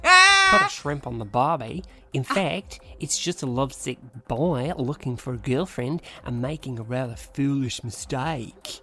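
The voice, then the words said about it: Put-on Australian accent. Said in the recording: “this is going to be in an Aussie accent... I can't do it. I can.”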